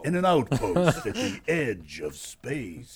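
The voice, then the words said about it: Dramatic movie trailer narrator voice. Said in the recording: “do the movie trailer voice for the rest of the show. Everything in movie trailer voice.”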